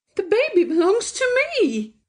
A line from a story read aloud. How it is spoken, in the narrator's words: cried Mrs